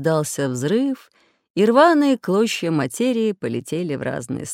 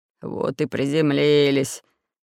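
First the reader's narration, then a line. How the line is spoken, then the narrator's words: Mumbled. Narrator (Russian): пробормотал Буль-Буль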